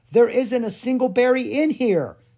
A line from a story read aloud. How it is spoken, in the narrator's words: she exclaimed